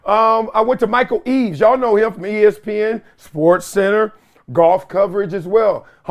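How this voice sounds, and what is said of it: Slightly dry, parched voice. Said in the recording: “my voice is a little parched”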